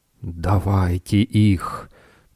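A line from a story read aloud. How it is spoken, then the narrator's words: Hissed. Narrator (Russian): прошипел предводитель пурпурных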